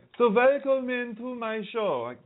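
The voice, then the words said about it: Weak put-on German accent. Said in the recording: “my German accent isn't very good.”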